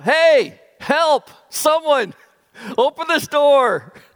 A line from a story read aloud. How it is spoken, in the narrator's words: I began to shout